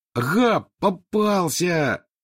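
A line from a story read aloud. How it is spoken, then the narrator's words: Triumphant yell. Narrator (Russian): завопил Рон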